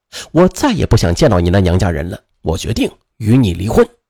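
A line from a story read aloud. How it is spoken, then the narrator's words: Cold, over the phone. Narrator (Chinese): 他在电话里冷冷地告诉吕霞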